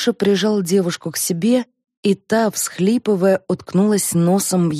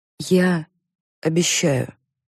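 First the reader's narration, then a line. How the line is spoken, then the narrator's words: Quiet. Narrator (Russian): тихо сказала она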